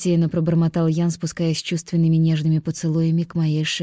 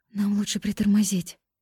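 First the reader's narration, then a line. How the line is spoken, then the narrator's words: Breathless whisper of pleasure. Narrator (Russian): прошептала я, умирая от наслаждения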